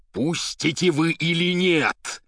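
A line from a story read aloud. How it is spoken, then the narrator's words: Terrible shout. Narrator (Russian): страшным голосом крикнул поэт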